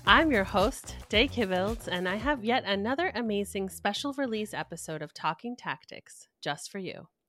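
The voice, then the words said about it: Exaggerated podcast host voice. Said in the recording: “laughing at my podcast voice”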